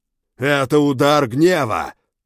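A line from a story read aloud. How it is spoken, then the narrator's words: Barked. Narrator (Russian): рявкнул Кизарий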